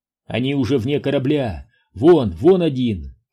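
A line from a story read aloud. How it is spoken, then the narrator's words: Shout. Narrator (Russian): крикнул Митч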